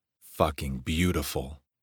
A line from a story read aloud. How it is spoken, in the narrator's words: He rasped